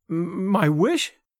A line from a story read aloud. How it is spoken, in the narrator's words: stammered the girl